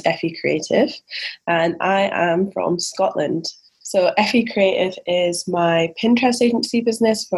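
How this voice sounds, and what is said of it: Mild Scottish accent. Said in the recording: “I was really hoping for like a wicked deep Scottish accent ... my accent isn't as strong as it once was”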